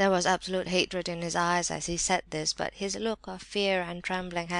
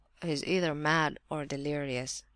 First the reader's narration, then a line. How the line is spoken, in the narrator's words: murmured Rogojin